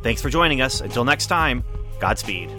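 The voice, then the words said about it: Deadpan delivery. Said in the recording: “the deadpan delivery makes it nice”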